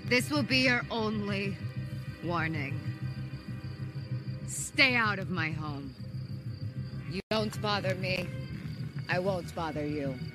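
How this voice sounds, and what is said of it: Wanda's Sokovian accent, stern. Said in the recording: “You even hear Wanda switch back to her Sokovian accent, really letting y'all know she means business”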